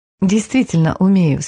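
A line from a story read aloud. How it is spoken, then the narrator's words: Calm, confident assurance. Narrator (Russian): спокойно и уверенно заверила она Пита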